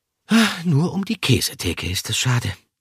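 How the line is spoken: Sighing. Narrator (German): seufzte er

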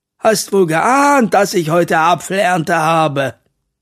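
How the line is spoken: Laughing. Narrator (German): Mathilda lacht

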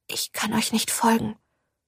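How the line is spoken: Whisper. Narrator (German): flüsterte Ophelia

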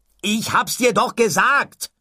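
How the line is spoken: Shouted. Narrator (German): schrie Ford

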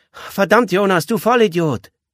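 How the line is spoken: Girl calling from background. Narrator (German): Das tätowierte Mädchen rief aus dem Hintergrund

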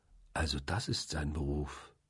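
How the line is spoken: Quiet. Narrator (German): sagte ich leise

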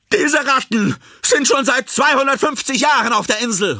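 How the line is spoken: Called out. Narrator (German): ruft LaJoy

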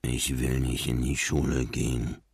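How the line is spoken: Mumbled. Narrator (German): nuschelte Marlin

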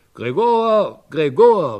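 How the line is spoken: Calling out. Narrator (German): rief er

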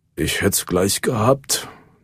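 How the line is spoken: Mumbled. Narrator (German): nuschelte Henna

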